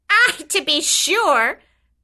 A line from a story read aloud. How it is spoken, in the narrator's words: cried